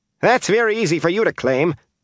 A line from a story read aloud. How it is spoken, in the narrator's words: Adina Lewin said sharply